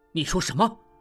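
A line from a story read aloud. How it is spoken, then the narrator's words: Shocked and angry. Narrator (Chinese): 又惊又怒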